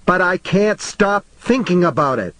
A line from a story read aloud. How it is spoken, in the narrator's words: she shouted, and something about that jagged on Johnny Marinville's ear